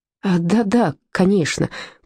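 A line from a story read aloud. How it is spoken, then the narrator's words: Muttering. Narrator (Russian): пробормотал он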